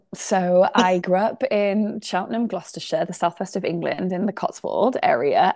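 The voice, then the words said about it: British accent. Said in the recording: “you've got your British accent”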